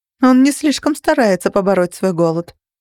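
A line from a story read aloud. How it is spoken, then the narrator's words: Dry remark. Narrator (Russian): сухо заметила я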